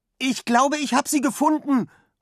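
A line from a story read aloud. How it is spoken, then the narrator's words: Calling out. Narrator (German): ruft Finn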